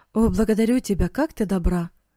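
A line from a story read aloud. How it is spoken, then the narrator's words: Exclamation. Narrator (Russian): воскликнул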